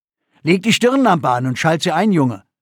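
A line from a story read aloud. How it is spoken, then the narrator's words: Calling out. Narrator (German): rief Bente seinem Sohn zu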